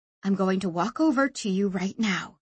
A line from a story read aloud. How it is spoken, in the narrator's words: she said quietly